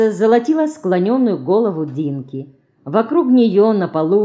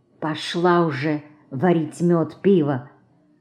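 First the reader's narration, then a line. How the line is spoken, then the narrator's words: Quiet speech. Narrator (Russian): Мышка тихо говорила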